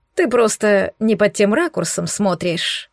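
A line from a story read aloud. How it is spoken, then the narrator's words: Short laugh. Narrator (Russian): хохотнул Корди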